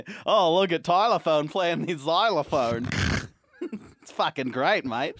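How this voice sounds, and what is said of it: Put-on Australian accent. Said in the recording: “I've been doing an Australian accent a lot recently”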